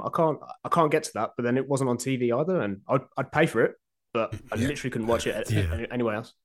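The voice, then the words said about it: Birmingham (Brummie) English accent. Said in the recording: “You probably can tell from my accent, I'm an exiled Brummie”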